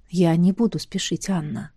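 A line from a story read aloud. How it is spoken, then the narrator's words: Quiet. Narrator (Russian): негромко произнес он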